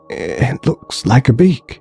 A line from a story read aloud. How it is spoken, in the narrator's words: whispered the terrified technician from behind him